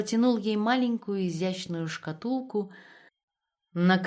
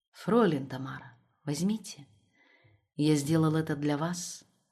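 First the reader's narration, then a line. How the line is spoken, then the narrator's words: Quiet. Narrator (Russian): тихо сказал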